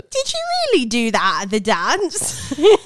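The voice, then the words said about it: Fairly convincing put-on accent. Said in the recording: “You are not bad at the accent, I have to say. It is pretty spot on to what everyone sounds like.”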